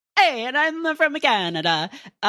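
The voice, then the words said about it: Strong put-on Italian accent. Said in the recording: “You should just develop like a strong Italian accent.”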